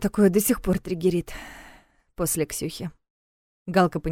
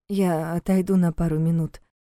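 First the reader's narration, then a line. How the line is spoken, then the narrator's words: Slightly hoarse voice. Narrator (Russian): слегка охрипшим голосом сообщила Алина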